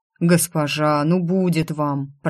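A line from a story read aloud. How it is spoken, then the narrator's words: Deep bass voice. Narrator (Russian): пробасил Данир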